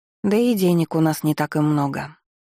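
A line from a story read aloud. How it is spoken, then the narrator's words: Gloomy. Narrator (Russian): мрачно добавила я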